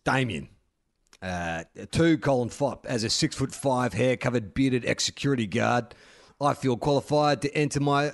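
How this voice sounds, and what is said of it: Exaggerated macho voice. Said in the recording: “in a bloody macho voice”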